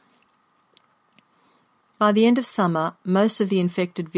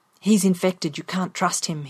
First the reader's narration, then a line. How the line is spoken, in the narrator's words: he warned me in a harsh whisper